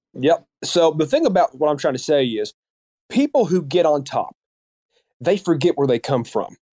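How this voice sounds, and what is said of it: Kentucky Southern American accent. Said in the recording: “that's a Kentucky accent right there”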